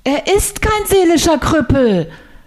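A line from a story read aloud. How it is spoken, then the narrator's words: Unusually loud. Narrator (German): sagte ich ungewöhnlich laut für meine Verhältnisse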